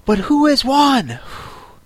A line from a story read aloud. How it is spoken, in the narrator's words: panting and asking